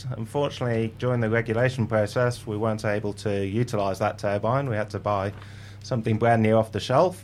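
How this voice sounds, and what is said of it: English accent. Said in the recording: “Going by your accent, I mean, you'd agree there's some good things come from England”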